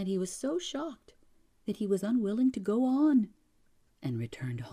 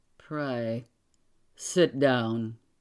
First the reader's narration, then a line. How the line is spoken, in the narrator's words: Kovalenko said, coldly, with a frown